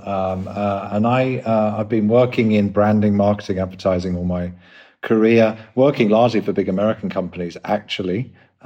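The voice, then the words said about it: English London accent. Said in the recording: “you probably tell by the accent, I'm from England, London.”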